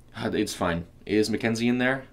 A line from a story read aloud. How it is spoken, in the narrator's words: asked